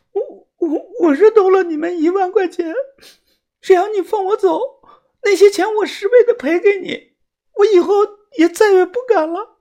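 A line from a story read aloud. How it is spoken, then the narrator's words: Tearful pleading. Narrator (Chinese): 他哭着脸求饶的说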